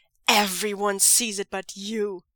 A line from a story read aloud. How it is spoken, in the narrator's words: Zhang Cheng snarls